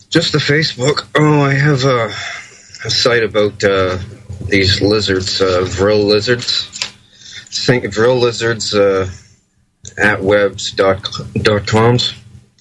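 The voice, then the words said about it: Canadian accent. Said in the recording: “I think he sounds like he's got a Canadian accent of some kind.”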